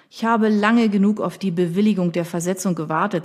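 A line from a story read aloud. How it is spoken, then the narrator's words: Plain. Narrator (German): sagte Evan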